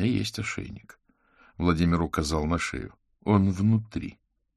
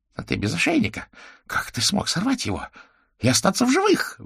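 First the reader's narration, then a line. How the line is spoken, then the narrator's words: Shrill squeal. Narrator (Russian): взвизгнул колдун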